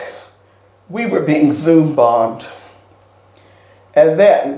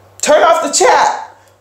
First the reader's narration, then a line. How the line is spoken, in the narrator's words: one of the other storytellers yelled